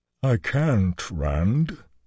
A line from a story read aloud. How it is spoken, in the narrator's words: he said mournfully